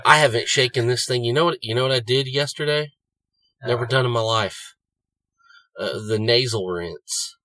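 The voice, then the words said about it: Sick, congested, sniffly voice. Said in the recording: “I'm going to cough. I'm going to fucking sniffle. I'm still goddamn sick ... my voice probably sounds that way, too”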